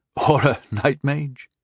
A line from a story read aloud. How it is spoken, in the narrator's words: Rondal chuckled